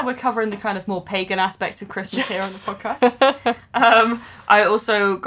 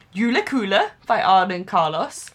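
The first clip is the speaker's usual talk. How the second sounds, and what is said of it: Put-on Swedish accent. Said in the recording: “I hope I did a good Swedish accent there.”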